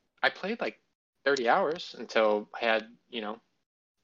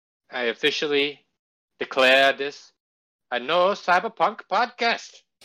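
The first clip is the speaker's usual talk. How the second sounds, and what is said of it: Put-on accent. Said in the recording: “Why would you have that accent? Like, why that one?”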